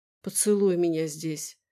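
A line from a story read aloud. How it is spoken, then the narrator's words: Whisper. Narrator (Russian): прошептала она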